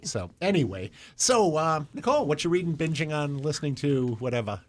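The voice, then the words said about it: Put-on New Jersey accent. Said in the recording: “Why am I doing a New Jersey accent? ... I'll go back to being Midwestern.”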